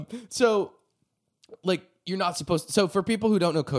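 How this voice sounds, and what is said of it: Usual voice. Nothing is said of it.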